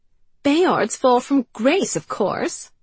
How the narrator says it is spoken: said Carrie impatiently

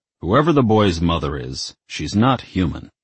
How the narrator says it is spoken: Lucifer grumbled

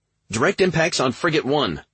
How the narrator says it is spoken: Jessica exclaimed

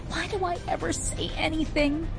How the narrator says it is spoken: Tizzy moaned

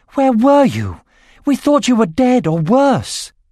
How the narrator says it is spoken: Running toward them, she threw her arms around and cried

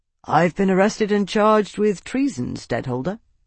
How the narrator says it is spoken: Tavi replied cheerfully

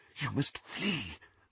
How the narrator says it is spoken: whispered Professor McGonagall

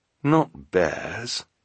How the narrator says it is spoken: the scout in the sweater said, so quietly that the two Baudelaires had to lean in to hear him

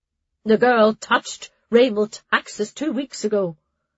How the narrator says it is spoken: Sister Pan answered, adding somewhat dryly

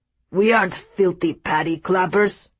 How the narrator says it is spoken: snarled

